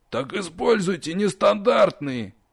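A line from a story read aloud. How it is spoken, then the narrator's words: Unrestrained angry bark. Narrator (Russian): не сдержавшись, рявкнул ректор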